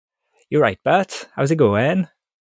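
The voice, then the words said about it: Welsh-accented cartoon character voice. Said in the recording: “The only accent I can do is Welshy from Futurama.”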